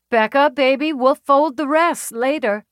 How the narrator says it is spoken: she called out

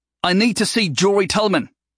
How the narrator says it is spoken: Neil yelled

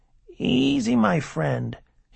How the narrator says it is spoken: he said in his whispering voice

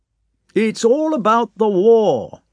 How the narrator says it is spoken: the count shouted down the table

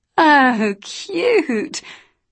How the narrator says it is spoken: Annabelle laughed

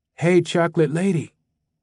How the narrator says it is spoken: a male voice whispered

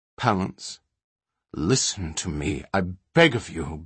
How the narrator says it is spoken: Balinor pleaded quietly

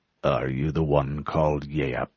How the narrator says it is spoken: The deep voice came from behind him

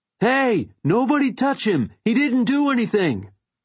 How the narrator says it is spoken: I yelled

